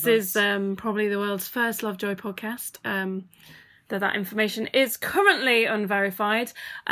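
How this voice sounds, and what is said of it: Radio announcer voice. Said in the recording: “doing a radio voice ... I like your radio voice”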